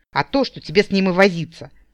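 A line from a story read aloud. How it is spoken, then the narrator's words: Furious barking. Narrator (Russian): рявкнул взбешенный недогадливостью инчичекиста Уилкин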